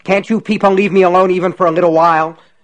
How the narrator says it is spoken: shouted angrily

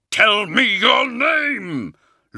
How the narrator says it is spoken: Luther shouted

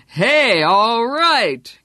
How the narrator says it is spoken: Greg shouted over it

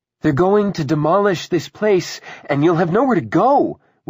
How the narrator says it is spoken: Willa cried

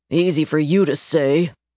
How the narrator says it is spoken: grumbled

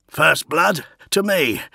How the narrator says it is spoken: grunted Vanuk

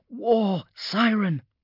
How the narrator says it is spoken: gasped when the last echoes had eventually passed

